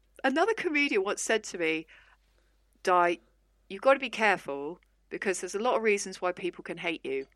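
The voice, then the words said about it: Non-regional, posh-sounding English accent. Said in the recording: “I don't have any particular regional accent as a consequence of moving around a lot when I was younger. So I can come across as posh”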